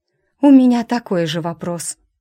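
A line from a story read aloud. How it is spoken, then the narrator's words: Hoarse rasp. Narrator (Russian): прохрипела я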